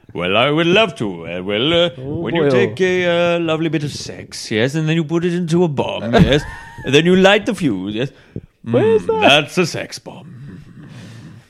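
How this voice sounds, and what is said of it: Put-on accent of unclear origin. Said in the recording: “That accent was good, wasn't it? ... Incredible. I'm not sure where it was from.”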